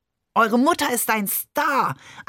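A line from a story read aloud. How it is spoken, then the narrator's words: Overjoyed shout. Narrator (German): schrie Barbe überglücklich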